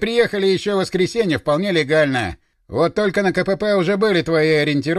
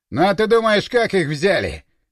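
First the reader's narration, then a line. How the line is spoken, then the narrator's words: Chuckling soldier. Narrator (Russian): хохотнул боец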